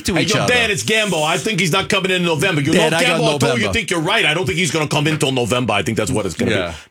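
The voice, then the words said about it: Exaggerated Italian New Yorker accent. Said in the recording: “why do people think that all like Italian New Yorkers talk like that? ... the stereotype”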